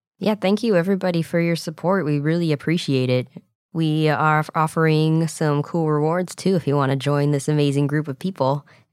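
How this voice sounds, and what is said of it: Raspy voice from a cold. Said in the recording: “I'm sick and that's why I sound a little raspy ... she caught a cold”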